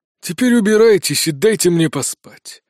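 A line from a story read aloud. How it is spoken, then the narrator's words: Barking. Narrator (Russian): рявкнул Долотов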